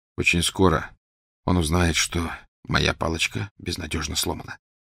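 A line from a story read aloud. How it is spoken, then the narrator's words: Quiet. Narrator (Russian): тихо сказал Гарри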